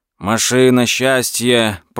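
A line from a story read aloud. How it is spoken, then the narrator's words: Hoarse rasp. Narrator (Russian): прохрипел Лео Ауфман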